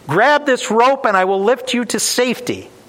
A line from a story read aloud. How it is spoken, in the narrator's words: the pilot shouts down